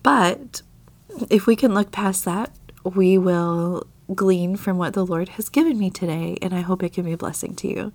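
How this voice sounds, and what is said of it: Slightly scratchy voice. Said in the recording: “my voice sounds a little bit different at different times throughout this episode, and that's because I'm overcoming a mild sickness ... my voice is a little bit scratchy”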